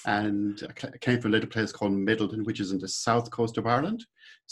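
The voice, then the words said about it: Irish accent. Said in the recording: “you may have guessed my accent already that I'm originally Irish”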